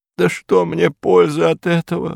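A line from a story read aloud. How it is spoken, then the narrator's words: Old woman sobbing. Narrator (Russian): рыдала старуха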